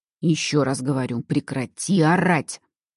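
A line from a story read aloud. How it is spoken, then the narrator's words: Man's growl. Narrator (Russian): Рыкнул мужчина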